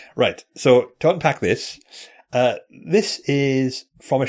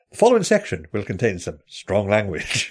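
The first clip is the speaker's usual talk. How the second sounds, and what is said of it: BBC announcer voice. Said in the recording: “BBC announcer voice”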